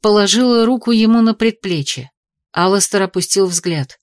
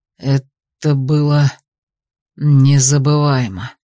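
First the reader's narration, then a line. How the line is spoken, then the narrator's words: Strained rasp. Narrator (Russian): прохрипел всеми силами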